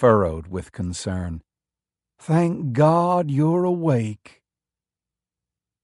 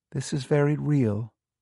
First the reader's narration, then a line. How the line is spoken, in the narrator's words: she said gently